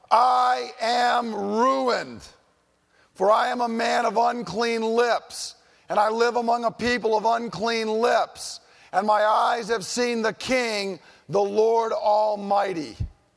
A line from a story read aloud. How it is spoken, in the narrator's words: I cried